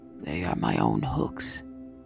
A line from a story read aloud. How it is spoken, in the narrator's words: Shishakli said in a husky voice